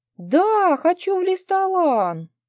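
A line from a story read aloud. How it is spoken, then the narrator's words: Excited happy cry. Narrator (Russian): Возбужденно вскрикнула моя дочь, как всегда довольная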